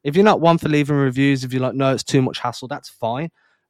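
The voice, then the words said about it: English accent. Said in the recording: “there's an English guy. He's got a weird accent.”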